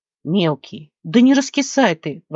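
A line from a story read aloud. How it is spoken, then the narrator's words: Exclamation. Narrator (Russian): воскликнул Алекс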